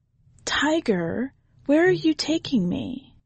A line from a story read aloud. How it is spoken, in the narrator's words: Wind murmured in response